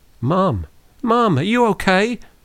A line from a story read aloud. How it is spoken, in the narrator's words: Monica cried from the back seat